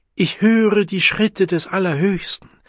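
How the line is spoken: Call. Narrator (German): rief sie

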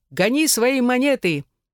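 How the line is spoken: Loud shout. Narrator (Russian): затем я громко крикнул

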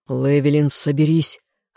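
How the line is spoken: Growl. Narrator (Russian): рыкнул он

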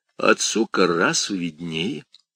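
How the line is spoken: Calm reply. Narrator (Russian): спокойно ответил тот

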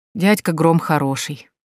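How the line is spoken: Sighing. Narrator (Russian): вздохнул Лоренцо

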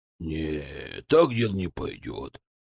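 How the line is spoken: Grumbling. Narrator (Russian): проворчал древний римлянин

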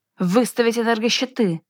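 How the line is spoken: Shouting. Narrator (Russian): выкрикнул Чо

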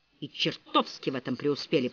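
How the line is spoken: Muttered. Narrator (Russian): пробормотал Ричард

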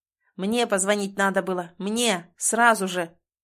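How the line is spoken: Father shouting frantically, unhinged. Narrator (Russian): не выдерживает отец и все-таки выкрикивает, резко меняясь на глазах и превращаясь в слетевшего с катушек психа

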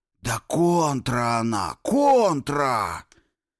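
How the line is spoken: Loud furious whisper. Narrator (Russian): В наступившей тишине раздался особенно громко яростный шепот Бешанова

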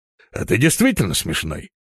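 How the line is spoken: Executioner's grumble. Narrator (Russian): пробурчал палач

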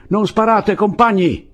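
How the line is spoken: Yelled. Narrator (Italian): urlò Andrés

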